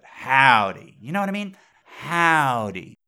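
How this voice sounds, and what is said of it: Exaggerated folksy twang. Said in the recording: “it doesn't got that human twang to it”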